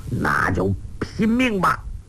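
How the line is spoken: Through gritted teeth. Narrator (Chinese): 欧阳锋咬牙道

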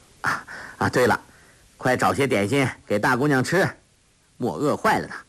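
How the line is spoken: Laughing. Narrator (Chinese): 杨康笑道

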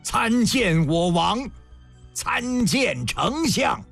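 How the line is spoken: Loud voices in unison. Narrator (Chinese): 十三员大将……与原先的十员大将会齐……轰然高声

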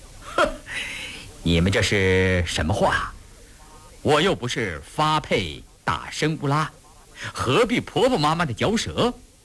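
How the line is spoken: With a smile. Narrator (Chinese): 胤祥笑了笑说

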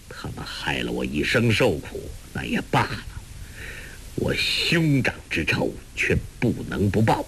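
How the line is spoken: Cold. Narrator (Chinese): 柯镇恶冷冷地说

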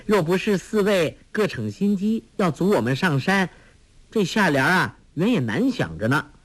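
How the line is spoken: Laughing. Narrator (Chinese): 黄蓉笑道

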